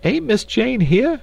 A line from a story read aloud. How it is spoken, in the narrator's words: cried Esmeralda